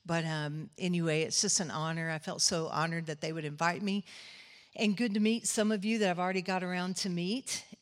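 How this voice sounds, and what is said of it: Texas Southern US accent. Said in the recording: “I'm a Texas girl, if you couldn't hear by the accent. I'm probably way more Texas Ellie Mae than a lot of you.”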